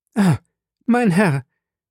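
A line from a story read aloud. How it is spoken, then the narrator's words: Young woman exclaiming. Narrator (German): rief die junge Frau aus, bedeckte sie mit Tränen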